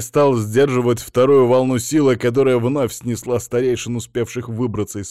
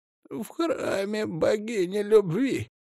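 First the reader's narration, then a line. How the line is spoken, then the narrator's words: Hoarse. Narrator (Russian): хрипло ответил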